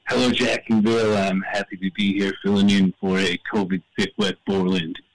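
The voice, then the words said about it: Thick Canadian accent. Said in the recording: “a little Canadian flair ... I got a real thick accent”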